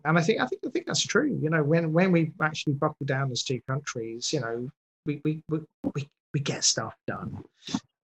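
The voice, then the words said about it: Accent that Americans find appealing. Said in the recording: “always impressed by the accent. Over here, I do not have a particular or likable accent, but over there, you love it.”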